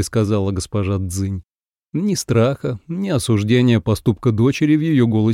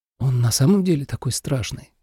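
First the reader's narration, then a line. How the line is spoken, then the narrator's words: Whispered. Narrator (Russian): прошептала Ацинь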